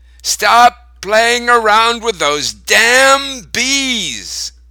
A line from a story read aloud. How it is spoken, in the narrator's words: Grandma shouted through her kitchen window